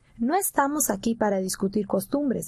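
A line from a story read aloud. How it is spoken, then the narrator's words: Plain. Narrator (Spanish): dijo el ranchero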